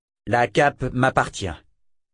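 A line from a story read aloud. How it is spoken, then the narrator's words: Plain. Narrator (French): répondit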